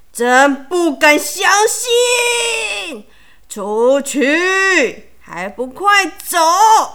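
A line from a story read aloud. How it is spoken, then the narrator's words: Roaring. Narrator (Chinese): 大熊咆哮着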